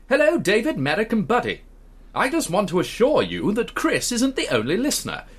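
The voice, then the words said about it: Posh old-fashioned BBC accent. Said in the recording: “posh. ... Do it old fashioned BBC, the very first broadcast at Alexander Palace.”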